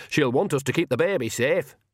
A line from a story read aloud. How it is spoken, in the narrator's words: she added loudly